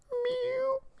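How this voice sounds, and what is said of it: Not very good cat meow. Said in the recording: “I don't do a very good cat noise. ... No, you don't.”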